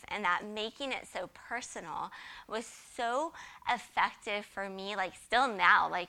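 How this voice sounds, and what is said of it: Choked-up, emotional voice. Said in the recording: “I get choked up thinking about it now”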